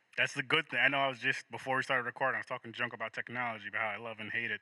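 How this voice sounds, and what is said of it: American accent. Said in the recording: “you're obviously American with your accent”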